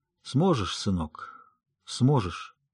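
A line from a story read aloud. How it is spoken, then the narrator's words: Hoarse strained sigh, pause. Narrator (Russian): Пауза, хриплый натужный вздох, затем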